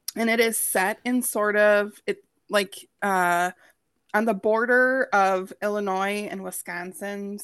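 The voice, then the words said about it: Minnesota accent. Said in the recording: “there goes my Minnesota accent”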